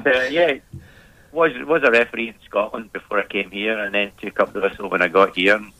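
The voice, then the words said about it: Scottish accent. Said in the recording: “with this lovely Australian accent I've got here, you can tell I'm from Scotland.”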